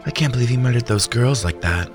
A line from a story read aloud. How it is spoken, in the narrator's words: sighed